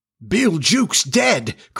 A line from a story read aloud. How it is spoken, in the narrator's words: cried the startled pirates